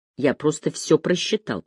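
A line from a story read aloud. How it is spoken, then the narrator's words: Grumble. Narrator (Russian): проворчал Деккер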